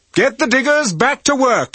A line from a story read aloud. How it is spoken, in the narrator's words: Lawrence shouted